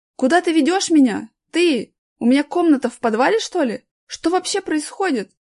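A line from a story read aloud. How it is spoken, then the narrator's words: Frightened shouting. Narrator (Russian): кричал Аркаша, испуганно оглядываясь по сторонам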